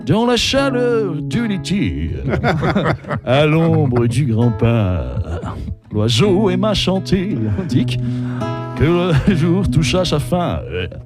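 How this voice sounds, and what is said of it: Sung imitation with octave drop. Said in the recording (French): “façon Yves Montand ... il y a la descente d'octave ... c'est plus haut aussi”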